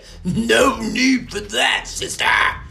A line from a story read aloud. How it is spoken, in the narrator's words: snarled Murkle